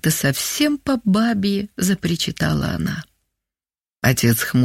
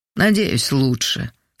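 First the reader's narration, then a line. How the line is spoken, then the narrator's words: Calm. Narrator (Russian): сказал спокойно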